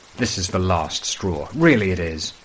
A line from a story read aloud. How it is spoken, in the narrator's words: the senior custodian exclaims